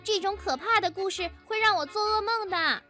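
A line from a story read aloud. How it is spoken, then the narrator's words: Clamoring little girl. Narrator (Chinese): 小熊妹妹叫嚷着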